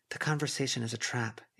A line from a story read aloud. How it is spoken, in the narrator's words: Avery murmured